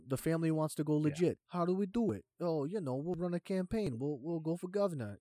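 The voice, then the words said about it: Poorly done put-on accent. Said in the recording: “that was the worst accent ever”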